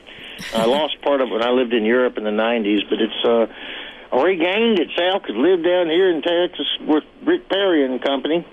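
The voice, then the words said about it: Southern US accent. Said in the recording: “I love your accent. It's so cute. ... I've spent so much time in the South, it does jump out”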